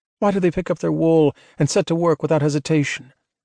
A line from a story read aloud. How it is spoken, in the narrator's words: Holston sighed